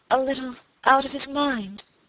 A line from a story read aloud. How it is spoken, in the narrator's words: faltered Lady Audley